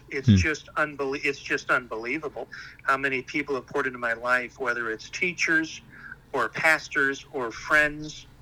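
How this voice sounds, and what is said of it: Emotional, moved voice. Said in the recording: “I'm getting a little emotional here ... without getting too emotional”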